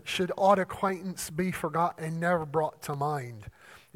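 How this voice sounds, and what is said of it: Put-on Scottish accent. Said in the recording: “my best Scottish accent”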